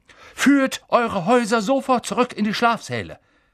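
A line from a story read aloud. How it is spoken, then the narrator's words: Blustering, booming. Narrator (German): polterte er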